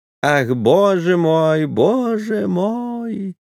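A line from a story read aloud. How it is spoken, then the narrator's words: Thin singsong breathless voice. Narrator (Russian): заговорил он тонким певучим голосом, задыхаясь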